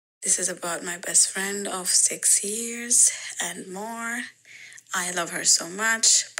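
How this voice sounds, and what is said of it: Non-native English accent. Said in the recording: “English is not my native language, so you will notice my accent.”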